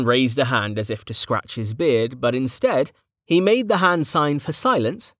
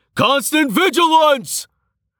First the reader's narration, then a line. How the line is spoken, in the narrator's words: roared